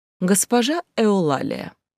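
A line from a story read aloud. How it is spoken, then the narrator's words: Ingratiating, exaggeratedly polite. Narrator (Russian): мой голос прозвучал вкрадчиво и нарочито вежливо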